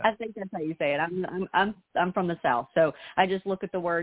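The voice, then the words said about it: Southern US accent. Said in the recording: “You got the best accent. I love your accent... great accent... a lot of people on the show have Southern accents”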